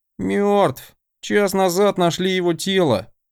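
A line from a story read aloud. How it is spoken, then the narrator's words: Grim report. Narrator (Russian): мрачно сообщил Константин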